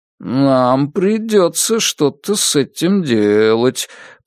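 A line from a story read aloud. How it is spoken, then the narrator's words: Dog's drawl. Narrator (Russian): протянул Пес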